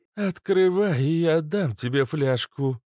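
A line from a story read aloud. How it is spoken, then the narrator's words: Cooing. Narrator (Russian): проворковала Кобра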